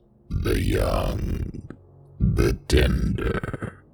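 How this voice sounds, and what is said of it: Deep groaning voice. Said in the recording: “A deep voice groaned.”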